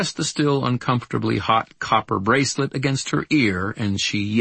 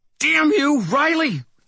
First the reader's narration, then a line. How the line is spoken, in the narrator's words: Tanya snarled